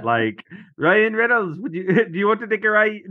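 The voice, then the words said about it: Shaky put-on Irish accent. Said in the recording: “I don't even know if I can do it in an Irish accent. ... You started out really strong, though.”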